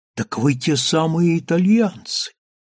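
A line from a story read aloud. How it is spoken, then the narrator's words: Exclaiming. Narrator (Russian): воскликнул он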